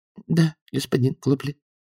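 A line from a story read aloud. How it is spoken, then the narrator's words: Cashier's timid reply. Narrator (Russian): робко ответила кассирша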